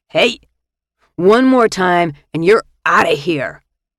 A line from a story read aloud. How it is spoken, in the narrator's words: bellowed across the room